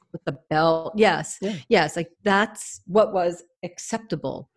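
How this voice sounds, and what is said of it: New York accent. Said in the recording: “There's my New York accent coming ... Out. ... Yeah, that New York accent comes out.”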